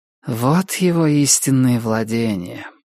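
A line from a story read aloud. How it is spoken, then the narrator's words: Female mutter. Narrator (Russian): пробормотала охотница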